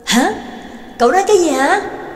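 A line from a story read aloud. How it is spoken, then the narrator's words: Shouted loudly. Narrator (Vietnamese): Trắc Mộc Cường Ba hét lớn lên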